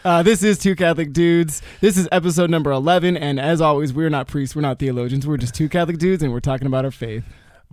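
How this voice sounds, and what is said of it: Imitates another person's voice. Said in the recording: “great Vin Scully impression ... It's the best I can do. I'm not an impressionist”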